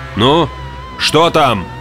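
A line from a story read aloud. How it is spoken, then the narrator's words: Shouted. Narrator (Russian): крикнул Петерс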